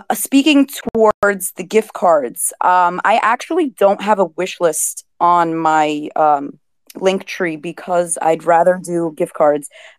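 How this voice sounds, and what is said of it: Heavy Brooklyn, New York accent. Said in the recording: “I have a very heavy Brooklyn, New York accent”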